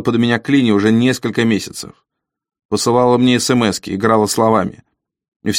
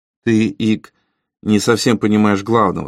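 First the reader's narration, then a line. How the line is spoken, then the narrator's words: Calm. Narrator (Russian): спокойно сказал Ли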